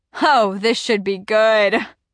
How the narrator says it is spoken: Pierce laughs

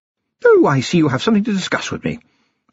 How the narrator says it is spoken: said, rather more brightly than warranted

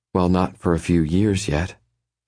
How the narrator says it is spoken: she says a little wistfully

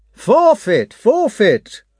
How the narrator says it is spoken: cried the militia officer

